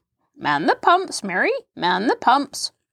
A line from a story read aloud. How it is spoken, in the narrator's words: croaked Halfred cheerily